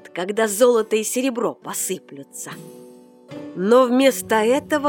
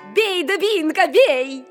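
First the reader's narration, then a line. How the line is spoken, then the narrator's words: Shouting. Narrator (Russian): сестра закричала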